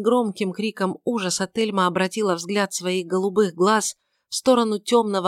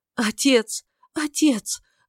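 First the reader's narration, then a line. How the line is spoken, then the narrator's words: Loud cry, sobbing. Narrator (Russian): громко крикнула она и зарыдала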